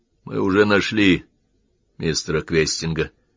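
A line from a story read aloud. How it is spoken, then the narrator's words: Weary. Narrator (Russian): устало произнес Уэбли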